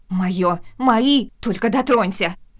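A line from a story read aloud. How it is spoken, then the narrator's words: Shrieking. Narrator (Russian): Визжали они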